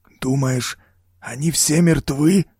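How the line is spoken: Strained, forced out. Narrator (Russian): наконец выдавил Лэнгли

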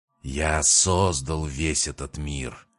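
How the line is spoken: Hissing. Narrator (Russian): прошипел Крион

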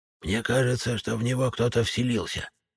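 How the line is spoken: Soft old woman whisper. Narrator (Russian): тихонько прошептала мне на ухо баба-яга

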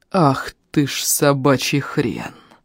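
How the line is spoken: Muttered through clenched teeth. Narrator (Russian): Процедил он, чувствуя, как багровеет окружающий мир

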